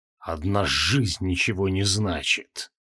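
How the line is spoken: Muttered. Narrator (Russian): пробормотал он

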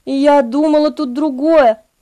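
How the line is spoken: Young woman whispering. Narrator (Russian): прошептала молодая девушка

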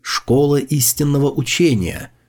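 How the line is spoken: Whispered explanation. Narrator (Russian): шепотом объяснил

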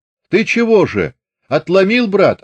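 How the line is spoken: Shout. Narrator (Russian): крикнул Астахов

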